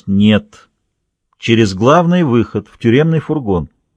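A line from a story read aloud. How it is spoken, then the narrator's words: Calm firm statement. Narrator (Russian): Охранник из Капитолы абсолютно спокойно и твердо произнес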